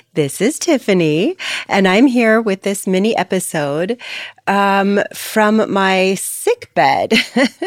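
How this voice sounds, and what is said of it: Slightly funny-sounding voice. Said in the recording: “My voice may sound a little bit funny to you right now. ... My whole family got hit really hard with COVID ... my voice may sound a little bit funny,”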